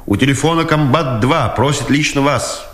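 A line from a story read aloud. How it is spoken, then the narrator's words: Shouting from afar. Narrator (Russian): издри крикнул Дудкин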